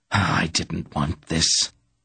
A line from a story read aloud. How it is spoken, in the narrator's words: Pogra said angrily